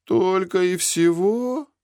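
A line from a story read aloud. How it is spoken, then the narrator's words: Disappointed drawl. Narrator (Russian): разочарованно протянул Зик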